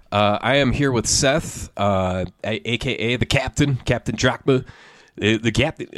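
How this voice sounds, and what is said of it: Baseball announcer voice. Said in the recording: “baseball announcer voice”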